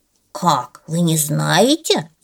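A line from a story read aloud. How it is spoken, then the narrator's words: Grumbling bear cub. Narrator (Russian): заворчал медвежонок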